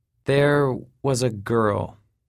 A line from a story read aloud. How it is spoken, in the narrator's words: he said slowly, with measured words